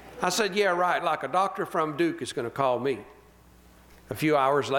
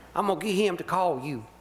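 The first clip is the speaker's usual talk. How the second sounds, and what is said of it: Put-on Virginia accent. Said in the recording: “My pastor's from Virginia, so I gotta throw his accent in there.”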